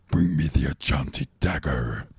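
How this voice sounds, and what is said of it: Cheesy 80s devil villain voice. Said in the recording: “the devil voice ... the stupid voice. Fucking cheesy 80s. ... The devil. ... Bad guy voice.”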